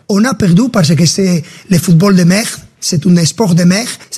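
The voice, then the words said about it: Strong Spanish accent speaking French. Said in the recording (French): “l'Espagnol ... Avec son accent marqué”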